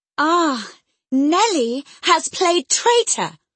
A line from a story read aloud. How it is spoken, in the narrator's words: she exclaimed passionately